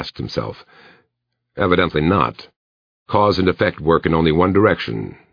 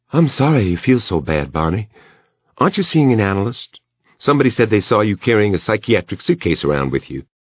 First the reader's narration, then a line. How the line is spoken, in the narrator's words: In her placid, conversational voice, Emily said